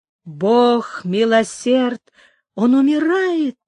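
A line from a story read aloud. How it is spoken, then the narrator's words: Exclaiming. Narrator (Russian): воскликнула Сара Кондора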